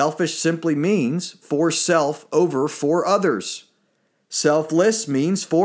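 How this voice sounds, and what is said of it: Usual voice. Nothing is said of it.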